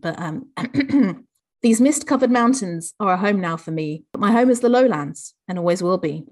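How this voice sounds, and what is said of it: Generic Southern English accent. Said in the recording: “I can't do Geordie. I'm afraid I'm going to have to do my generic Southern English accent.”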